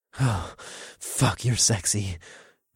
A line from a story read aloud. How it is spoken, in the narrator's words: I breathed